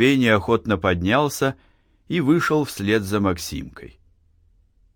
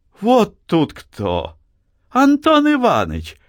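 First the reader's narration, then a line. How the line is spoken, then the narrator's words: Joyful exclamation. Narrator (Russian): воскликнула Анна, радуясь почему-то появлению Антона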